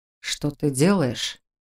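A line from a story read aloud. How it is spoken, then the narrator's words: Quiet question. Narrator (Russian): тихо спросил Раал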